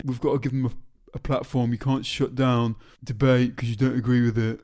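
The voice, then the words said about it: Mocking dim-witted voice. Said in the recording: “You're doing an impression. ... if you're going to say thick things, it's impossible to not put the thick voice ... on.”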